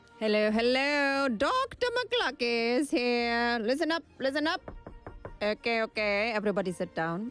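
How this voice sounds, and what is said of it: Put-on character voice. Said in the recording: “I do that voice every time.”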